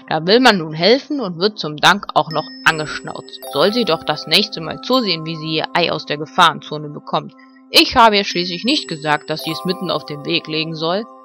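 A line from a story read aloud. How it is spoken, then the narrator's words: Annoyed growl. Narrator (German): knurrte Ben verärgert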